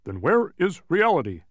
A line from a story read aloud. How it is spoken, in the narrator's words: barked Tok